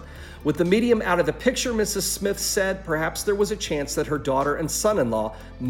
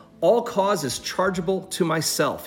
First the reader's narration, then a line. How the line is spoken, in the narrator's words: he said